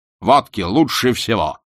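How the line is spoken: Deep bass voice. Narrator (Russian): пробасил Яшвин

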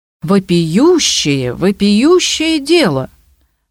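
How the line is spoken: Exclaiming. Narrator (Russian): воскликнул Бамбаев

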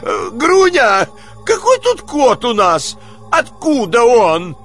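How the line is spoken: Frightened irritated shout. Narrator (Russian): закричал испуганно и раздраженно

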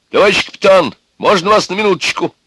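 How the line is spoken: Loud shout. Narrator (Russian): громко крикнул

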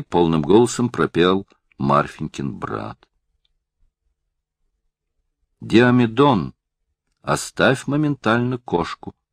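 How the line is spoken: Plain. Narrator (Russian): сказала Марфенька

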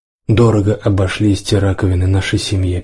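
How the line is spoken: Sad smiling voice. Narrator (Russian): печально улыбнулся вождь Скунс, бегущий задом наперед

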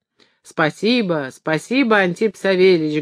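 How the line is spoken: Touched, moved voice. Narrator (Russian): говорил он тронутым голосом

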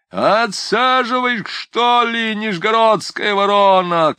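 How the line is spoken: Shouted by coachman. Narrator (Russian): кричал чужой кучер

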